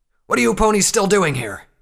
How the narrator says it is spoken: some pony shouted

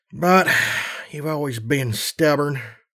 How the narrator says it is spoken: he sighed

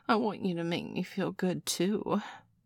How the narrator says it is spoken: Nurse Joy whined

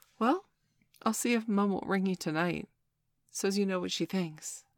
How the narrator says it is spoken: I said

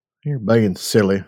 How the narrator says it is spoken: I murmured

